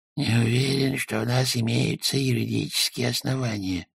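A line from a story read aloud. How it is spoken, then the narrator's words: Muttering. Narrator (Russian): пробормотал он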